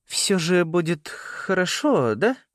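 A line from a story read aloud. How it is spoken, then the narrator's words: Wavering uncertain question. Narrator (Russian): спросила она, и голос ее неуверенно колыхнулся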